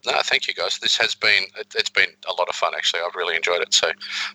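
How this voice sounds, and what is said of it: Speaks with a noticeable accent. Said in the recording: “Your accent's cool.”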